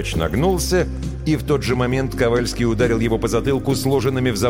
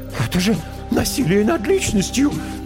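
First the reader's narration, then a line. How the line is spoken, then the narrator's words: Squeaked meekly. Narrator (Russian): пискнул было тот, что утверждал, что их непременно освободят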